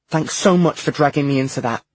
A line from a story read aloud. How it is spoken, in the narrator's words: James snapped